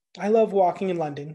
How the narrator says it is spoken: said Mrs

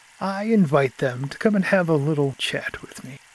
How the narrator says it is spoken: he said in a soft voice

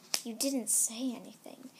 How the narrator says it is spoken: he said softly

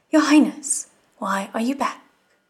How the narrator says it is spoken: he exclaimed in amazement

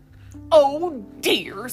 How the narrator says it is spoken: said Joel, crossly

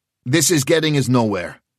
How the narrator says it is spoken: he said sharply

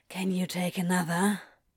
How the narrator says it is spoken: Crowley asks breathlessly

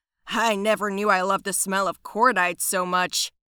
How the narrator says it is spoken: Flynn shouted with a howl

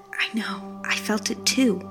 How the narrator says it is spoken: Hank loudly whispered

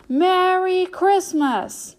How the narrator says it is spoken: The conductor then yelled

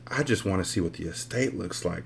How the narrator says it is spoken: I whispered

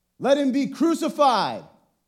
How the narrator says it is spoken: they shouted all the more

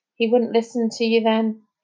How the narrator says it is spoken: said Jazz sadly

